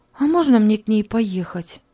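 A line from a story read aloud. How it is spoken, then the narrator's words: Timid question. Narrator (Russian): робко спросила Мари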